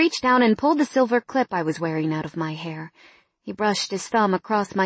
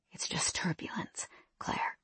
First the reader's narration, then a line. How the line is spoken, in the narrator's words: he whispered